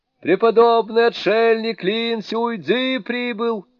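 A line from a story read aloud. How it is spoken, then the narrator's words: Spirits shouting. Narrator (Russian): закричали духи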